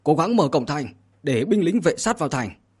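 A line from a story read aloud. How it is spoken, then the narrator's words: Loud shout. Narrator (Vietnamese): Trường Sinh thì nhân cội hét lớn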